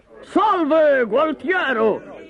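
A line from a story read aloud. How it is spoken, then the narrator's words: Shouted. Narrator (Italian): gridò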